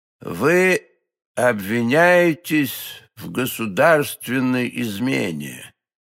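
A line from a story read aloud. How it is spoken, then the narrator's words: Cardinal's slow speech. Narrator (Russian): медленно проговорил кардинал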